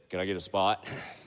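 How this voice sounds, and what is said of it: Very deep, lowered voice. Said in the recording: “in a very deep voice”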